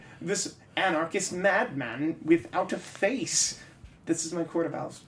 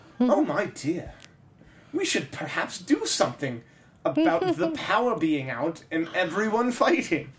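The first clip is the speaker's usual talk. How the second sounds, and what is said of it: Old British man character voice. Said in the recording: “This is my Court of Owls voice. ... That's a really good impersonation there, because they're an old British guy.”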